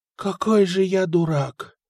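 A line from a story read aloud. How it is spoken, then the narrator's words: Groan. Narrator (Russian): простонал Патрик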